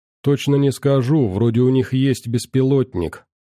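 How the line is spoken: Plain. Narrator (Russian): ответил Андрей

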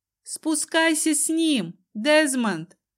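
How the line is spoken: Loud shout. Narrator (Russian): Громко крикнула я

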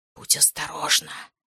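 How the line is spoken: Whispering in ear. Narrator (Russian): прошептал он мне в ухо

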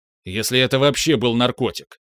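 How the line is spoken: Sharp. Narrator (Russian): резко сказал я

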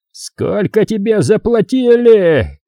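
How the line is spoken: Furious yell. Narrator (Russian): заорал босс

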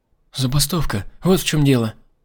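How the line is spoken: Timid babbling. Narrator (Russian): пролепетала Дархан

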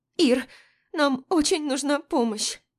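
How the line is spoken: Sobbing. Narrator (Russian): Всхлипывает Дуня

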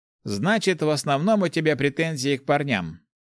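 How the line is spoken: Wry hmph. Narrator (Russian): хмыкнул Гош

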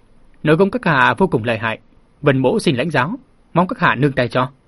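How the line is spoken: Calm, composed. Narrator (Vietnamese): ung dung nói

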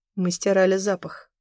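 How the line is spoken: Dry. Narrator (Russian): сухо ответил Бор

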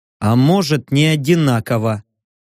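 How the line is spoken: Grumbling. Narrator (Russian): проворчал я

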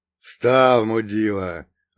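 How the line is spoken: Growled. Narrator (Russian): рыкнул второй

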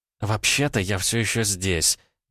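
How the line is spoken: Spiteful, through clenched teeth. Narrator (Russian): процедила Ванда, злобно глядя на Эдуарда

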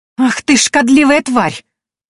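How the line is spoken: Shouted. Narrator (Russian): выкрикнула

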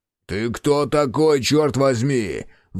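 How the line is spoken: Roar. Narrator (Russian): взревел

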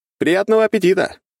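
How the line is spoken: Cheerful shout. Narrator (Russian): крикнул я весело

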